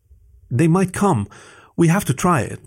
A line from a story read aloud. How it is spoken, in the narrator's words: Leandro pleaded